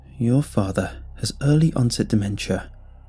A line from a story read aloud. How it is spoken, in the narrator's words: he said